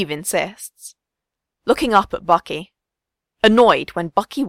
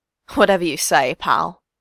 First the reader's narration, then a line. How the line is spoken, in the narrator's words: Bucky sneers